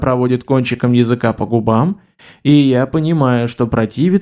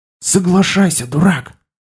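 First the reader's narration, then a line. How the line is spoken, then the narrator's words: Whisper. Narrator (Russian): Этим шепотом он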